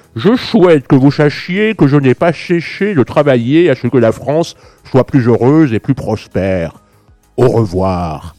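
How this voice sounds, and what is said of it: Imitates another person's voice. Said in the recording (French): “je vais me tenter une petite imitation”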